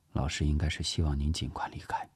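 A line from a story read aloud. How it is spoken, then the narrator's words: Quiet low voice. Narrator (Chinese): 聂西低声说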